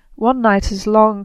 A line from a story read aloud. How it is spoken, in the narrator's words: cried Frey